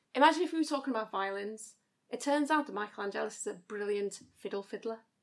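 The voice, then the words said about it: Put-on Scouse accent, pretty good. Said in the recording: “Can you do a Scouse accent?... It's the only accent I can do... That's actually pretty good!”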